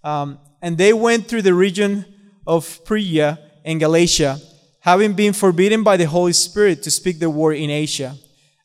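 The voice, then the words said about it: Speaks with a non-native accent. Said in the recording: “Excuse my accent.”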